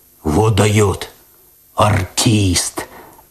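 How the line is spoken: Admiring bass, cat. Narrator (Russian): опять восхищенно пробасил кот

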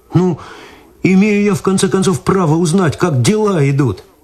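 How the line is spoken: Pleading. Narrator (Russian): взмолился Виталий

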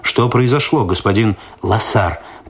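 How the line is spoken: Stern question. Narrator (Russian): лейтенант милиции строго спросил Лосара

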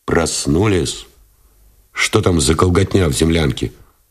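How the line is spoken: Displeased question. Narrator (Russian): спросил Новиков недовольным тоном

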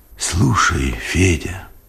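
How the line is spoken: Whispered. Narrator (Russian): шепотом сказал он

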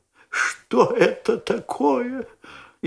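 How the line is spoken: Frightened whisper, lady. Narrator (Russian): испуганным шепотом спросила леди

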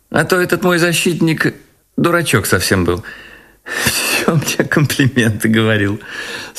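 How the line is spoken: Speaking, then laughing. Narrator (Russian): сказала она и засмеялась

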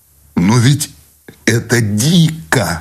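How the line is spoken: Cried out. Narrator (Russian): вскрикнул Сущеня

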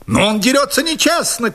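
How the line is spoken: Shouting. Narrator (Russian): крикнул мой противник

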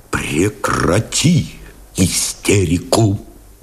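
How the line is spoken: Quiet command. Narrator (Russian): Тихо приказал Новиков

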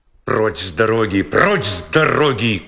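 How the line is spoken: Rough shout, policeman. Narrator (Russian): грубо крикнул полисмен

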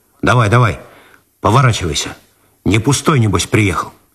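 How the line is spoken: Rude addition. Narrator (Russian): Виталию показался неуместным просительный тон, и он грубо добавил

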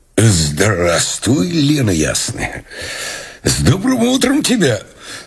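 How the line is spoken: Hoarse low baritone. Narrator (Russian): Из горла Мышлоевского выходил вместо металлического тенора хриплый низкий баритон

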